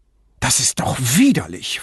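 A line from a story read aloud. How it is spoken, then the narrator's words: Angry hiss. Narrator (German): fauchte sie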